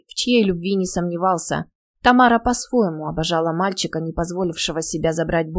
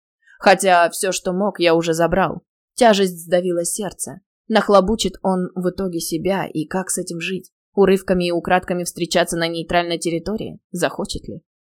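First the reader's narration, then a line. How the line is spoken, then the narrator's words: Growled. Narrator (Russian): Павел прорычал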